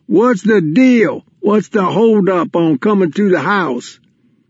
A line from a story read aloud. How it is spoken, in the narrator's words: Booby, shaking with laughter, yelled from across the room